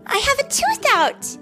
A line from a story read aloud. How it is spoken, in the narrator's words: Sal shouted